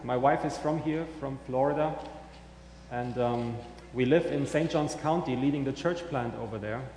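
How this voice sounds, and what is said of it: German accent. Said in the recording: “I'm originally from Germany, as you may hear in my accent.”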